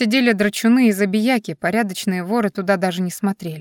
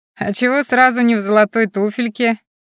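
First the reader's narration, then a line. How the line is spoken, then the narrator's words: Chuckle from a corner. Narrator (Russian): Хохотнули откуда-то из угла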